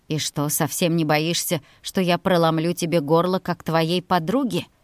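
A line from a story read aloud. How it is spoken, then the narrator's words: Very quiet. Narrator (Russian): Совсем тихо произнес он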